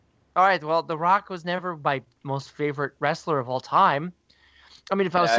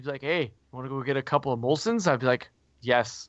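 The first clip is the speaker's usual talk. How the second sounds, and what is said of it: Weak put-on Canadian accent. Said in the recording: “that's your Canadian accent? ... I'm not good at accents. ... you sound going like somewhat of a Canada accent.”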